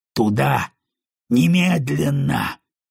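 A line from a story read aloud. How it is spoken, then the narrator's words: Growling. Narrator (Russian): прорычал Кайл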